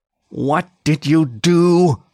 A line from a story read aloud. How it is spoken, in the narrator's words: he said through clenched teeth